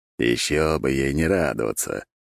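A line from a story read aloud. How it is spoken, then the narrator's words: Short laugh. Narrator (Russian): хохотнул Дорин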